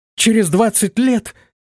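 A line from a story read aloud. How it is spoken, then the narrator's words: Astonished exclamation. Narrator (Russian): воскликнула пораженная девушка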